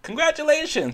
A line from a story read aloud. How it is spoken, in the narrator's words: exclaimed one lady